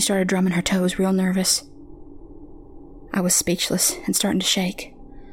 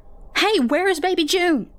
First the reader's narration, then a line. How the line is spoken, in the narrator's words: Another scream ripped through the air